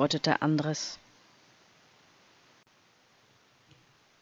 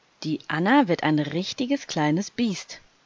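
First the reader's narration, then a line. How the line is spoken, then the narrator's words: Plain. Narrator (German): sagte Anton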